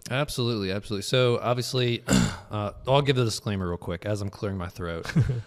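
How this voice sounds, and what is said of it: Hoarse, weak, recovering voice. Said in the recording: “my voice has just disappeared. It has come back a little bit today ... you're going to hear me clear my throat”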